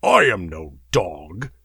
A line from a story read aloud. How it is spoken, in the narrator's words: the barbarian muttered